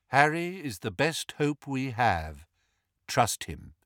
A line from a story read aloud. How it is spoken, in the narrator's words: said Lupin calmly